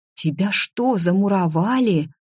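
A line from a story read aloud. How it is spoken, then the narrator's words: Frightened whisper. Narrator (Russian): испуганно прошептала Тисса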